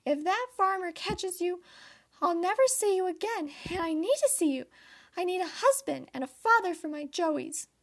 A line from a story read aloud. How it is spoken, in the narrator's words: cried